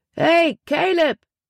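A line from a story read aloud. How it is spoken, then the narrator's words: Called out. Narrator (German): rief er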